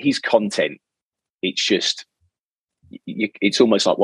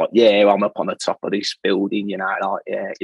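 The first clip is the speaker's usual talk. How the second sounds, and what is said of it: Put-on Cockney accent, poorly done. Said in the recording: “he's a typical cockney ... great accent ... it's terrible ... I can't do anybody else's accent”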